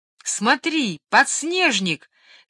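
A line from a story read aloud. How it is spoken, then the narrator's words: Joyful shout, older child. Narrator (Russian): крикнул старший радостно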